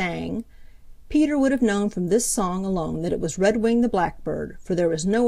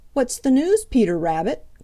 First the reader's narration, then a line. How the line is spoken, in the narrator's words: cried Redwing